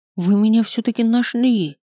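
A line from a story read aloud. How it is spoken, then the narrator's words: Breathless exhale. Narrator (Russian): выдохнул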